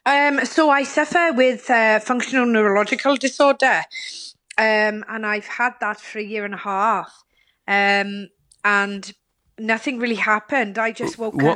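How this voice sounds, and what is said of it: Welsh accent. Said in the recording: “started speaking with a Welsh accent ... I can hear your Welsh accent straight away ... a foreign accent”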